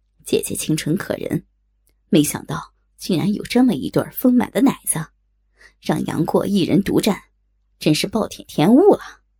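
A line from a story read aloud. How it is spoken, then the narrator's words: Admiring. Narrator (Chinese): 赞叹道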